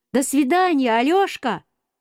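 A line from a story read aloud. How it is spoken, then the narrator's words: Shouted. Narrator (Russian): Петя крикнул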